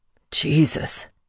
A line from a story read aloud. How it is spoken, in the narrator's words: Michael gasped